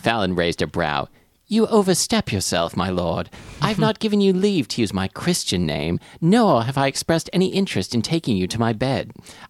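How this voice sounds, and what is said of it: Put-on British accent. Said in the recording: “Every time I try and do this accent, I think there are people in England who listen to our show, and I am very embarrassed ... British listeners, let's get reviews of my accent, 1 to 5 stars.”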